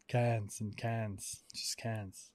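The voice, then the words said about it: Weird put-on accent. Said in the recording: “I feel like I'm adding a weird accent to this.”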